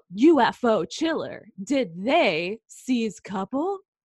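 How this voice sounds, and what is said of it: Old-time newspaper headline voice. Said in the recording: “Did you like my newspaper accent?”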